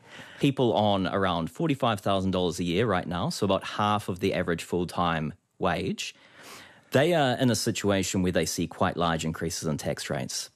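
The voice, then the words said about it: New Zealand accent. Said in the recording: “Apologies for my Kiwi accent.”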